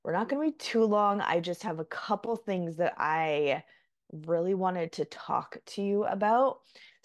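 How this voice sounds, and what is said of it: Crackly, slightly sick voice. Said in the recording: “my voice sounds a little crackly. I've been a little bit sick with some sort of respiratory something”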